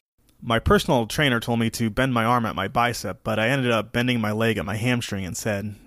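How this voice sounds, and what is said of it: Rough, hoarse voice. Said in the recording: “this episode sounded a little rough ... I have a little bit of a frog in my throat.”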